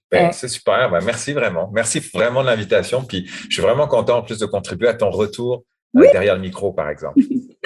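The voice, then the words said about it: French accent. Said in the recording (French): “tu as un accent quand même. On se doute que tu viens pas du lac Saint-Jean. Donc, t'es français d'origine.”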